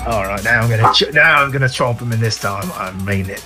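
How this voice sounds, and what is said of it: Put-on Australian accent. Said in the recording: “My Australian accent is actually hit its maximum”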